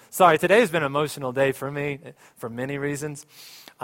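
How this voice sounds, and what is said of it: Emotional, choked-up speech. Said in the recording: “I'm going to get emotional.”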